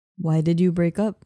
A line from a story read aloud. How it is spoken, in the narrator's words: he asked